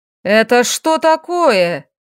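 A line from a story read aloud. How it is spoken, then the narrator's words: Shrill voice of lord. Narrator (Russian): Визгливый голос владыки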